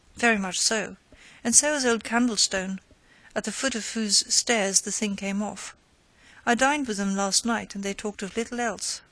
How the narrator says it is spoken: said Breton

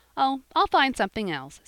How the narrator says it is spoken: said Jappy, cheerfully

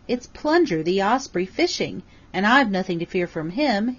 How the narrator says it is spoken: he cried happily

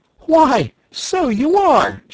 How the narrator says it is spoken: she cried

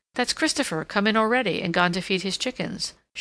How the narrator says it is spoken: she said

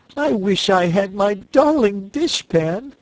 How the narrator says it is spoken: wailed Cake

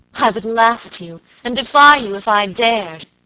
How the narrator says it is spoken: she cried

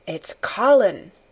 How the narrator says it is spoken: she said

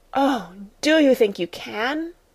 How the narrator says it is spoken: gasped

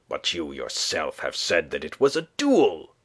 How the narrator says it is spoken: cried the lieutenant, between anger and bewilderment

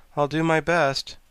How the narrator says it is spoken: returned the sawhorse cheerfully

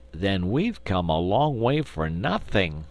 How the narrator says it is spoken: exclaimed Trot regretfully

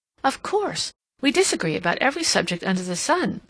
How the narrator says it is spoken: she exclaimed

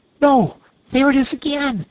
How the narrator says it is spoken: he cried, alert once more

